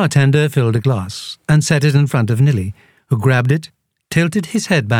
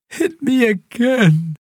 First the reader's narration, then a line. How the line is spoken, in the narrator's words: Nilly groaned, his voice sounding oddly choked up from the carbonation